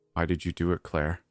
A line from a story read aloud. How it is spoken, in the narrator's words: I asked softly